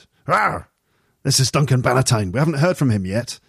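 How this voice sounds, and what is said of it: Gruff Glasgow accent, Duncan Bannatyne impression. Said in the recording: “Duncan Bannatyne... he's from Glasgow, and this is a terrible, terrible Glasgow accent... It's more like a Duncan Bannatyne accent than a true Glasgow accent... He's a bit gruff and slightly, sounds slightly moody”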